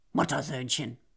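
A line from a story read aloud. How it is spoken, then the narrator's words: Contemptuous grumble. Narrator (German): Nero spuckte verächtlich aus und brummte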